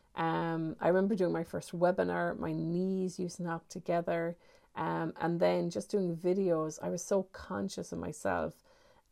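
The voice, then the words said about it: Irish accent. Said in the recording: “I've got an Irish accent.”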